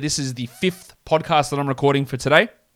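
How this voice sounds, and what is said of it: Slightly cracking, strained voice. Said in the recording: “My voice might be getting a little bit cracky here.”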